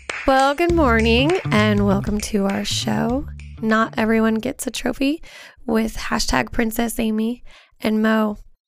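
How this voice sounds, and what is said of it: Raspy voice from illness. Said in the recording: “is not feeling very good. That's why her voice sounds very graspy. ... Oh, I'm like raspy.”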